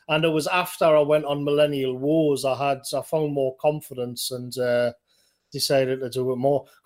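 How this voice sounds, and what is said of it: Thick northeastern English accent. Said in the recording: “I've got a thick northeastern accent”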